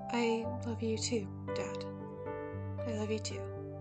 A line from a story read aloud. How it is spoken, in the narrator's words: I added in under my breath so only I could hear